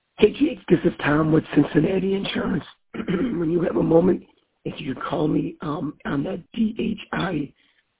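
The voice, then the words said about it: Hoarse, failing voice. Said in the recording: “I'm losing my voice.”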